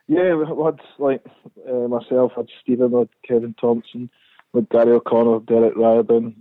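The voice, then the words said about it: Scottish accent, not anglicized. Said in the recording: “your accent hasn't changed. Okay, you haven't gone that kind of English way.”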